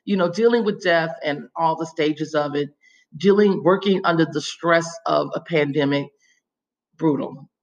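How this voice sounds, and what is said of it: Hoarse, fading voice. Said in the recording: “I'm losing my voice. It's early in the morning.”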